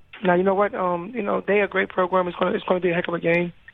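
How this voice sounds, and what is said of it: Hoarse voice. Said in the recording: “Sorry that my voice sounds like this. I'm a little hoarse”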